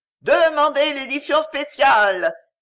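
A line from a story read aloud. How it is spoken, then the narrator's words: Hoarse shouting. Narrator (French): hurlait-il d'une voix éraillée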